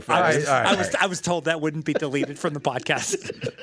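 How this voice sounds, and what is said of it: Impression of Milton from Office Space. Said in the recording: “is that an imitation ... That's his Rain Man. ... No, it's Milton in office space.”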